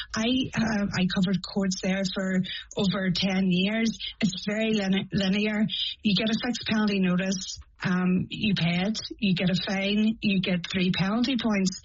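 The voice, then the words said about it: Northern Irish accent. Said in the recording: “as you can hear from my accent, I'm from Northern Ireland.”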